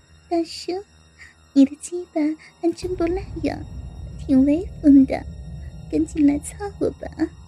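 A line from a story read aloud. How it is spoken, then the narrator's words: Laughing girl. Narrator (Chinese): 小姑娘笑笑说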